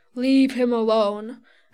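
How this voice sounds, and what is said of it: Deep, raspy voice. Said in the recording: “a deep, raspy voice”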